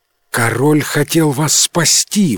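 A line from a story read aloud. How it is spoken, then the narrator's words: Exclamation. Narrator (Russian): воскликнул Луи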